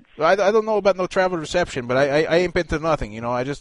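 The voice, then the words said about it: Speaks with a slight accent. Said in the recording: “I got a little bit of accent”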